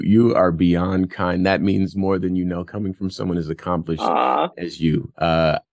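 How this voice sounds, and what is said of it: Polished radio announcer voice. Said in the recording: “I love your radio voice.”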